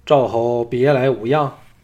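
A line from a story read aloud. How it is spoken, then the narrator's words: Hearty laughter. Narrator (Chinese): 庄襄王大笑道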